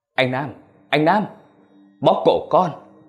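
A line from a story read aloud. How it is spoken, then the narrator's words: Trembling cry. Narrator (Vietnamese): Khôi la lên giọng run rẩy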